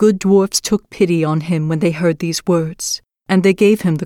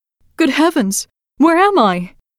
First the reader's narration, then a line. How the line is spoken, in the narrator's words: she cried out